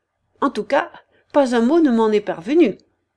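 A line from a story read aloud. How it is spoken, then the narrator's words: Curt reply. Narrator (French): répondit-elle sèchement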